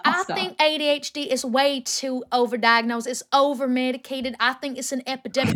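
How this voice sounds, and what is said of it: Bad put-on strong Southern accent. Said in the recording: “The accent is killing me. ... It's such a bad accent. ... she's from the South. And she's got a really strong accent.”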